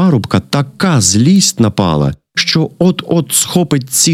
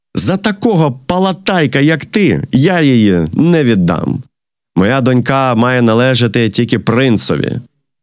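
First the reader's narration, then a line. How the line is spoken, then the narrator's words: Laughing. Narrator (Ukrainian): Цісар засміявся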